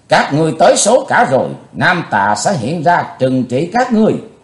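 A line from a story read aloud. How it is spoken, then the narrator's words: Loud shout. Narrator (Vietnamese): Chí Tôn quát lớn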